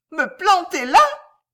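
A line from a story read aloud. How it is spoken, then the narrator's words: Shouting, trembling with rage. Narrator (French): cria-t-elle en tremblant de rage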